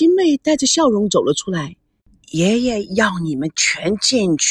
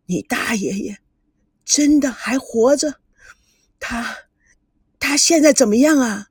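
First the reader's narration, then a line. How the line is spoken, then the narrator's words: Anxious, weak, trembling. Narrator (Chinese): 田心雨一急，明显的看出来身体受不了，但勉强着撑着，声音颤抖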